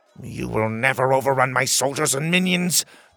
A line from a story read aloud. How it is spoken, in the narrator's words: the king spat